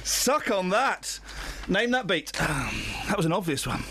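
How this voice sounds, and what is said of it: Out of breath, panting speech. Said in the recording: “I'm all out of breath now.”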